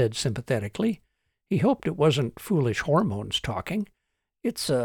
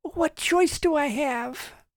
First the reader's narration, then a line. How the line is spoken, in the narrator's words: Trish whined